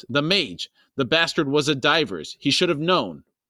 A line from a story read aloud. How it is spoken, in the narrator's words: Felicin snapped